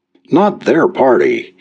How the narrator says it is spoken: he muttered

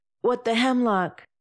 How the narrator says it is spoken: the boat driver shouts

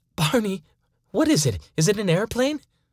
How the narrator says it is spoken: She nervously blurted out

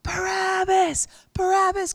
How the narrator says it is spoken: hearing his name out of nowhere be screamed

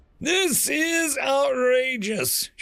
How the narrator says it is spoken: shouted the Exarch

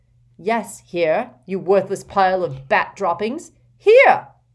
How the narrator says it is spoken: shrieked Mrs

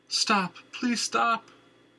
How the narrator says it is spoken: Erica cried, fighting Geddon's grip

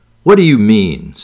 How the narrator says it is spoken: said Van Alden sharply

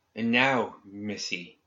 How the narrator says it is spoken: said Seamus, his voice like poison

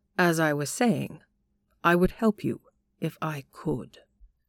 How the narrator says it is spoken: the old lady looked coldly at Margaret and said

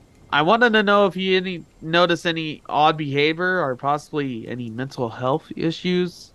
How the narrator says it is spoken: I asked

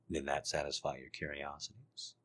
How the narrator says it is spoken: whispered

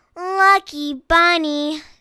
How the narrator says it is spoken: sighed Duck

